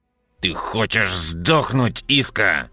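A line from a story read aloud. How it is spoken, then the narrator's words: Growled. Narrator (Russian): прорычал я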